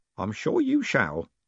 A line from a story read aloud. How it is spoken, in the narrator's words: she said, smiling sweetly